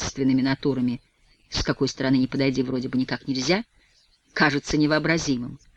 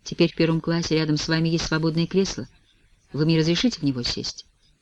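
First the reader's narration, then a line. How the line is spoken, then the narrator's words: Hesitant voice. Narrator (Russian): я нерешительным голосом говорю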